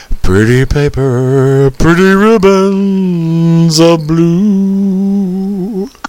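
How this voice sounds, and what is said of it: Sung imitation of another person's voice. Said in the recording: “my Roy Orbison impression ... start singing”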